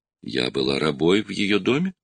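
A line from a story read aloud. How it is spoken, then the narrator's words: Calm reply. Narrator (Russian): спокойно ответила Мэй-Мэй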